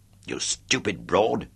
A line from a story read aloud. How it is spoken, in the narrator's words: I snarled at her